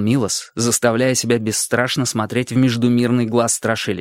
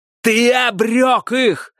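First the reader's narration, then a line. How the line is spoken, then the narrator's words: Shout. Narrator (Russian): закричал Милос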